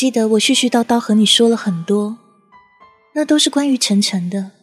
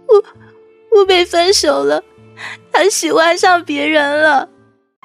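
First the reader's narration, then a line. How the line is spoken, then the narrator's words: Sobbing heavily. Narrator (Chinese): 哭得稀里哗啦的，边哭边跟你说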